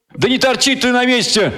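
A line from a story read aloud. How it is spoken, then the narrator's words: Yelling. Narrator (Russian): заорал я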